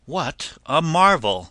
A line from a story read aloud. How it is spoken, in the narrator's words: cried out